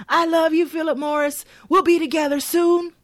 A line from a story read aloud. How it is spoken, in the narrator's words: yells back